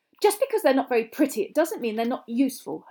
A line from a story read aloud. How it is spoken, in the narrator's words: Hermione snapped